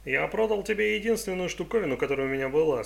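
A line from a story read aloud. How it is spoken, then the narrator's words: Plain. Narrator (Russian): сказал тот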